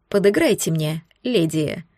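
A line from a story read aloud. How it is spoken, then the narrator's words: Whisper. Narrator (Russian): прошептал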